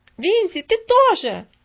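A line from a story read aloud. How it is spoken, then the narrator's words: Shouting. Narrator (Russian): закричала Стефали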